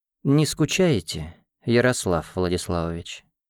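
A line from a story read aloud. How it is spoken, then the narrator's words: Languid voice. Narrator (Russian): томным голосом осведомилась она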